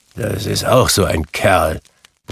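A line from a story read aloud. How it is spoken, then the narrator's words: Grumbling. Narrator (German): brummte Scrooge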